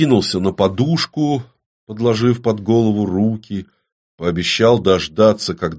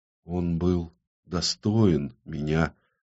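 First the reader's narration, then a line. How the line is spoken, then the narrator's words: Barely audible whisper. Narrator (Russian): едва слышно прошептала Ксана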